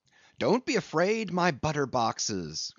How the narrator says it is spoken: cried Stubb

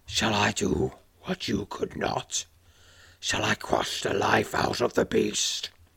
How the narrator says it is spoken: asks, his rumbling voice

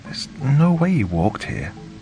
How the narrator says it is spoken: Sarah exclaimed

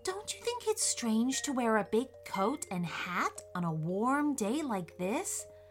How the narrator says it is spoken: whispered Leah

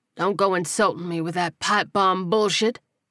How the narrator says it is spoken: Rufus scoffed

